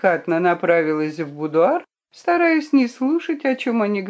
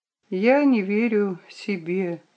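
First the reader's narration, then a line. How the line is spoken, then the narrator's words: Quiet reply. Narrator (Russian): ответила она тихо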